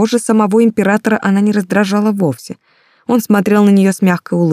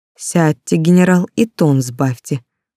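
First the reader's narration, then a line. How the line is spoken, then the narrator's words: Emperor, calm. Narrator (Russian): спокойно сказал император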